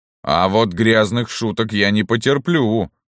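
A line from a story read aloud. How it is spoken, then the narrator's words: Roared. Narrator (Russian): взревел рикша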